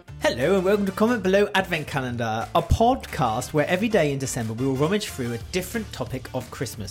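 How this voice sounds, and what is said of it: Put-on posh English accent. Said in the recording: “I'm not posh, I just put on the accent.”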